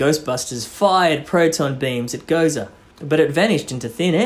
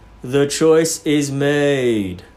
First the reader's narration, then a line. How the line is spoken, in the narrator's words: a spooky voice boomed